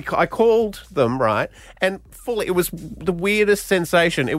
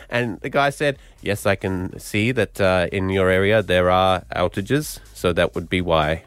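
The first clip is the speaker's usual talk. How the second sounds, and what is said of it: Half-committed put-on accent. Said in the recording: “A very good half accent. ... you really committed there. To that halfway”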